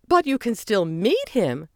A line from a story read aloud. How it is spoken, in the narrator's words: Margie replied brightly